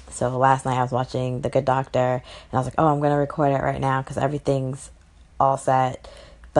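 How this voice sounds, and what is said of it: Tired-sounding voice. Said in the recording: “I sound a little tired.”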